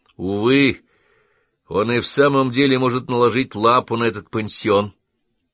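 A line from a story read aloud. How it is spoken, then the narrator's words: Sighed. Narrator (Russian): вздохнул Колли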